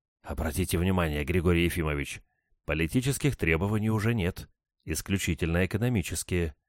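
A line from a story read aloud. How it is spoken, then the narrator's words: Whispered. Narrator (Russian): шепнул мне Булгаков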